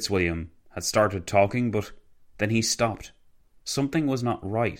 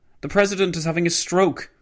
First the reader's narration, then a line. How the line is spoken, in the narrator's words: shouted Edward House